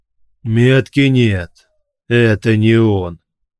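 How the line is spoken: Booming deep bass. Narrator (Russian): прогремел густой бас

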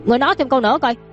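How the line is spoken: Furious shout. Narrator (Vietnamese): Đường Chiêu, giận tím mặt, giận dữ

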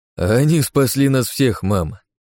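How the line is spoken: Laughing. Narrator (Russian): рассмеялся Кеннеди

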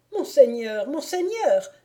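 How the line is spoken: Bailiff exclaiming. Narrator (French): s'écria le bailli

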